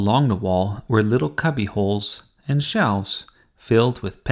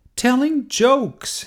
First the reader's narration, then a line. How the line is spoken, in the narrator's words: yelled Jasmine